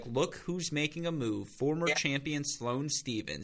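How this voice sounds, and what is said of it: Imitates a sports announcer's cadence. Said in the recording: “I can hear Chris McKendry doing it now ... That was my impression, by the way, of her cadence”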